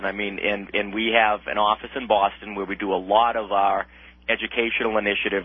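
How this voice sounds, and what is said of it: Boston accent. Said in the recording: “as you can tell from my Boston accent, I'm out here in Boston”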